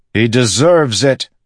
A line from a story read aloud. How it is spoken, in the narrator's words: he bellowed at those clouds